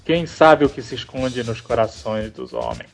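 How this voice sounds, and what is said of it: Imitates another person's voice. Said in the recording (Portuguese): “narrado pelo Orson Welles”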